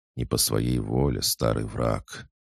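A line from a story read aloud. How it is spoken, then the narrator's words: General answering quietly. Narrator (Russian): тихо ответил черный генерал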